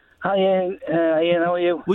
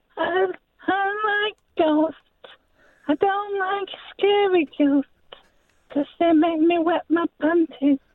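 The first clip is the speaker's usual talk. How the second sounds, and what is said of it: Impersonating a 12-year-old boy. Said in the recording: “impersonate a 12-year-old boy ... thought that was quite accurate”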